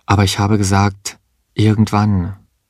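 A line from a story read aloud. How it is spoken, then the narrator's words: Calm. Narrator (German): sagte sie ruhig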